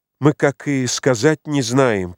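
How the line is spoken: Quiet, to herself. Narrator (Russian): проговорила она тихо, точно про себя

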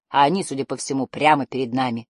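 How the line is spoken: Grumble. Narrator (Russian): проворчал Барда

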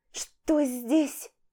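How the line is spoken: Hoarse wheeze. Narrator (Russian): Просипела она

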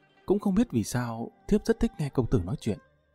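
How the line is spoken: Shy, soft voice. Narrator (Vietnamese): hai bên gò má Tần Tiên Nhi ửng hồng, nàng khẽ nói

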